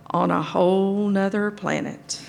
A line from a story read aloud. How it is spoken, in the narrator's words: added under my breath